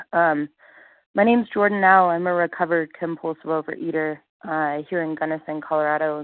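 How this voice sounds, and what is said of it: Congested voice from a cold. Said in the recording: “I have a bit of a cold.”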